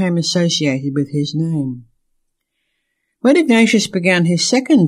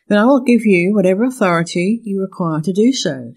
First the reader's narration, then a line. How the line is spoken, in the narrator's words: said General Otobi